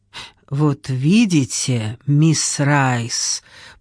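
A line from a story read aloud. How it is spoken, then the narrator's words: Hissed. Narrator (Russian): прошипел Виктор Ван Уэлден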